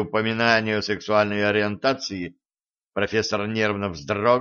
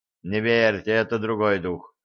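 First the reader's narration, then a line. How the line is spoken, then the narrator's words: Dejected sigh. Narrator (Russian): удрученно вздохнул капитан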